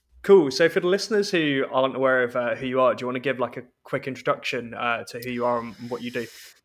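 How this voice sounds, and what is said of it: English accent. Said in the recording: “I basically sound English ... this guy doesn't sound like he's Scottish at all”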